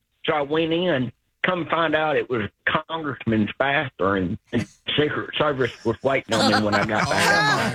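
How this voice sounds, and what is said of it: Southern drawl, sounds older. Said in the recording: “He sounds a little older, doesn't he? He sounds a little older... That Southern draw.”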